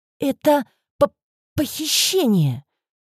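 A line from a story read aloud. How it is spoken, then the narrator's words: Stammering. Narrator (Russian): Заикаясь, выговорила я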